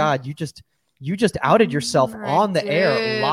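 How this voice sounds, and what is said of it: Usual voice. Nothing is said of it.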